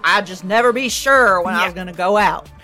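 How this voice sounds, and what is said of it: LBJ impression, Texan drawl. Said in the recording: “You gotta do it with an LBJ accent.”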